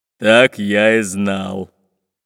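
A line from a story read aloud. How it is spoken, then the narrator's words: Deep bass voice. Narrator (Russian): пробасил Бульбуль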